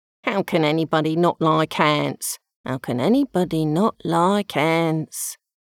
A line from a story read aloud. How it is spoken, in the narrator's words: Alan the anteater said muttering